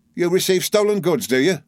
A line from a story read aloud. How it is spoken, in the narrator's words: cried Uriah